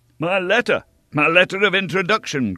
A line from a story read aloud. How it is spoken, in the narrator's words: cried D'Artagnan